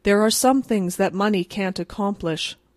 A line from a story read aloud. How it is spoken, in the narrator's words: remarked young Rockwall rather gloomily